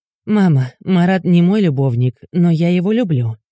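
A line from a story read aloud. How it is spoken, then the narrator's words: Tired. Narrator (Russian): произношу устало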